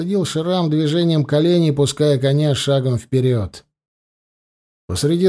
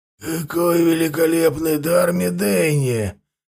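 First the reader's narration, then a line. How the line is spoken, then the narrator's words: Hoarse. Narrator (Russian): хрипло проговорил Венд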